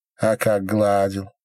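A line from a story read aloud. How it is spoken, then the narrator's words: Plain. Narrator (Russian): сказал наконец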